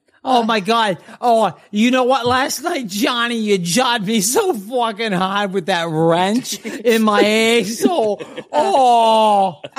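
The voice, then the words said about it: Boston accent. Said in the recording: “It's his Boston accent. ... Boston accent. ... It's his Boston accent. That's what gets it for you.”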